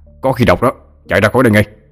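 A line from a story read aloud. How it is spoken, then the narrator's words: Urgent old man barking. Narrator (Vietnamese): Ông Thái nói như quát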